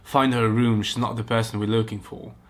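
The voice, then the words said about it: Put-on British accent. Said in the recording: “That's not going to be impossible to not read that with a British accent.”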